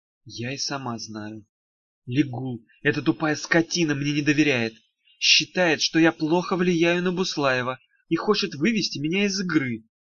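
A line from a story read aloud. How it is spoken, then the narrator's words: Quiet. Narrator (Russian): тихо сказала Даф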